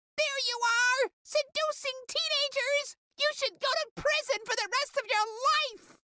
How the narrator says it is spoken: Lopez screamed

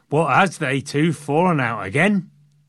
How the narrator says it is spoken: But probably in a Yorkshire accent

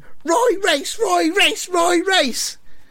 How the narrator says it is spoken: The fans are all shouting

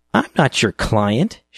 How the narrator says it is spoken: sneered

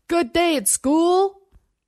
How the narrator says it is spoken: Over the rising whine of the engine and the vip, vip, vip of chopped air, he shouted

